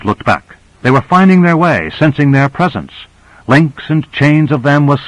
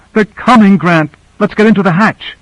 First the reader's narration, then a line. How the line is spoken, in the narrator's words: She cried out